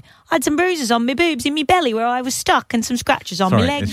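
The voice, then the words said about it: Put-on English accent. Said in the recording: “My best English accent.”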